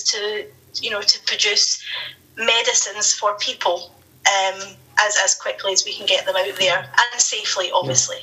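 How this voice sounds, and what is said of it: Strong Scottish accent. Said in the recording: “I can have quite a strong Scottish accent”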